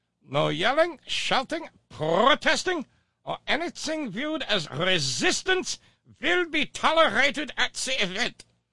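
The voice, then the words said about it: Put-on German accent. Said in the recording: “this would be a lot better with a German accent. Let's try it that way.”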